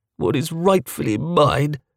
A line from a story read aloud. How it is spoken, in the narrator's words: Lord George moaned